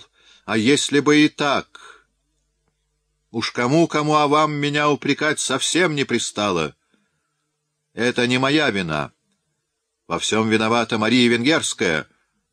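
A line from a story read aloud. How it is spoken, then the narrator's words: Furious shout. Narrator (Russian): он яростно выкрикнул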